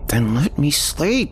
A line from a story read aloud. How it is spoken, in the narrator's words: groaned